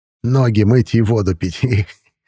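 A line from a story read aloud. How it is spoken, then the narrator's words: Laughing antique dealer. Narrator (Russian): рассмеялся антиквар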